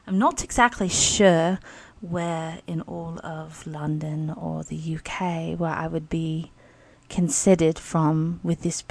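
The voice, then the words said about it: Attempted English accent. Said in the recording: “try to pull off an English accent or British accent”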